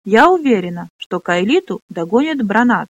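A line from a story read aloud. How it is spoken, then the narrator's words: Plain. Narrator (Russian): сказала она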